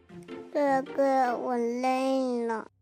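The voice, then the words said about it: Soft, quiet child's voice. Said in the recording (Chinese): “阿朵又小声说”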